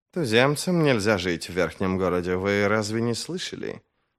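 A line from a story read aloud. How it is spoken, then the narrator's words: Quiet reply. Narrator (Russian): Негромко отозвался Хадиш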